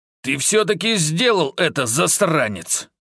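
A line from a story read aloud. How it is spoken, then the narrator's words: Angry creaky old voice. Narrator (Russian): Зло проскрипел самый сморщенный акционер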